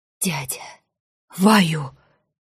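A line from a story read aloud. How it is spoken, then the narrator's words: Ragged, relieved exhale. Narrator (Russian): Он выдохнул рвано, с облегчением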